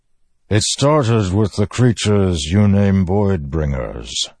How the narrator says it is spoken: the Stormfather said, voice rumbling and low, distant

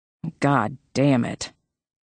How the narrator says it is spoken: Maggie muttered

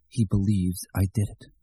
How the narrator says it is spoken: Mort whispered to the cold western Maine night, and the words came out in ragged chunks, bitten off by his chattering teeth

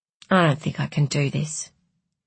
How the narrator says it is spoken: she said quietly

